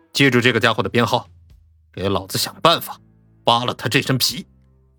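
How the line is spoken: Cold. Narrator (Chinese): 冷声说道

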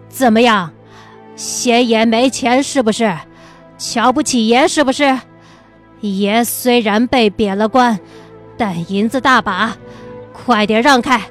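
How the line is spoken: Loud, brash. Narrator (Chinese): 曹德宝必定不敢如此放肆，可今天却不知道怎么了，大声的道

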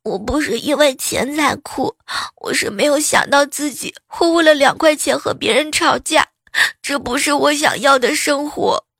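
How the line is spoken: Crying. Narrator (Chinese): 她哭着说

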